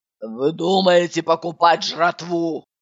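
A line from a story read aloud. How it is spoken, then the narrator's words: Menacing question. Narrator (Russian): Она грозно спросила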